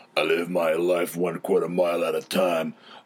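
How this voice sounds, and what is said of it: Imitates another person's voice. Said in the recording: “it's my best Vin Diesel impression... doing voices”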